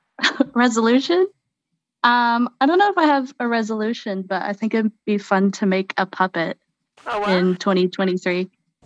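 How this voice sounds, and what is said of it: New Zealand-sounding accent. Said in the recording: “Why don't you have a New Zealandish accent?”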